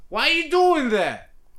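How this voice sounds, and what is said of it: Imitates another person's voice. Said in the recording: “Good Hannibal impression.”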